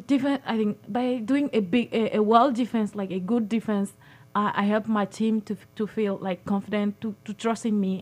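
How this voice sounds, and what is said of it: Noticeable accent of a French speaker. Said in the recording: “I'm sure our listening audience can pick up your accent. And I know French is your official language.”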